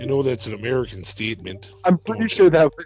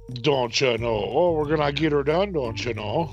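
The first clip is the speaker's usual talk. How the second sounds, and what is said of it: Exaggerated mock Canadian accent. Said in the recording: “Your Canadian spin was ... your American spin on my Canadian accent.”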